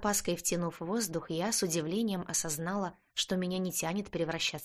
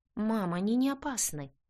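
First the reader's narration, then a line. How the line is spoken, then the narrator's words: Confused answer. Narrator (Russian): Все еще растерянно ответила я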